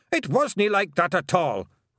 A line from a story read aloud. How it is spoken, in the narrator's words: roared Rob Anybody